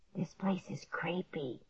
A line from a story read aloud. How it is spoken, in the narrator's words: Clark whispered